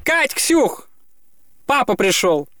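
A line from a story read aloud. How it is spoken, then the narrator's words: Shout. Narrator (Russian): Женька крикнула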